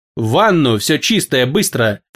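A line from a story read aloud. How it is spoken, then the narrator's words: Low command through teeth. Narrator (Russian): полголоса сквозь зубы приказал владыка полумира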